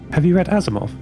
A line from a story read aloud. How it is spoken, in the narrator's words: asked